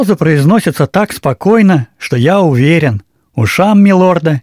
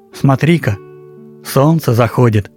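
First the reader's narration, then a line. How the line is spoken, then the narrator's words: Plain. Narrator (Russian): говорит Валя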